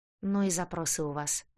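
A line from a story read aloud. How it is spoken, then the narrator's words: Sighing. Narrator (Russian): вздохнул продавец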